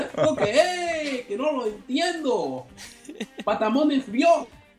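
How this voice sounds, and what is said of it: Put-on Mexican accent. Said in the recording (Spanish): “con acento mexicano”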